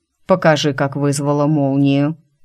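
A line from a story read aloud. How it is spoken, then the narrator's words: Dry dragon voice. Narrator (Russian): сухо вернул меня на землю дракон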